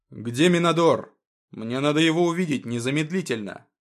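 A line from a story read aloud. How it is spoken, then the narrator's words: Cyborg's menacing demanding shout. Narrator (Russian): Как можно более грозно и требовательно выкрикнул киборг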